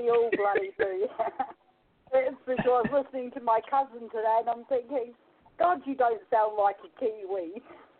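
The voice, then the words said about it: New Zealand accent. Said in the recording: “Listen to that accent.”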